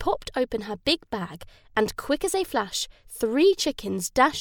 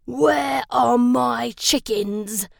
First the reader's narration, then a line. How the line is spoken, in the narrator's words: he roared